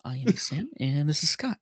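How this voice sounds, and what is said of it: Calm public-radio announcer voice. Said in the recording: “my voice is starting to sound like we're on NPR right now”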